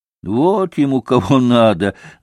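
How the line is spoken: Laughing. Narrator (Russian): засмеялась Грушенька

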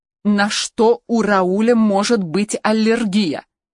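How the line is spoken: Loud. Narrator (Russian): Громко повторила Хелена

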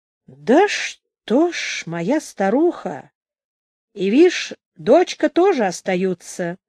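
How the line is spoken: Slow speech. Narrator (Russian): медленно говорил Григорий Ильич

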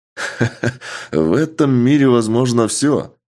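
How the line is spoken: Man laughing. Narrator (Russian): Рассмеялся мужчина

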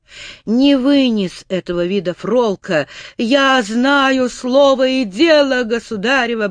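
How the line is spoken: Hysterical cry. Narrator (Russian): болезненно истерически выкрикнул

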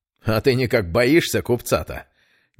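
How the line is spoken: Smirking. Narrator (Russian): не удержавшись, хмыкнул незнакомец

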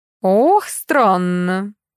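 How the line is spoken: Old woman drawling. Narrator (Russian): протянула старуха

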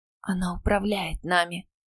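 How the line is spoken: Whisper. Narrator (Russian): прошептала я

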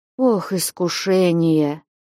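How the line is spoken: Barely audible, flustered. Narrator (Russian): Едва слышно промолвил совсем растерявшийся Василий Борисыч

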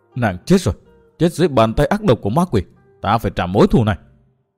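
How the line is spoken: Tearful muttering through gritted teeth. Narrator (Vietnamese): Dòng lệ đã vơi, đôi mắt đỏ ngầu, chàng nghiến răng lẩm bẩm

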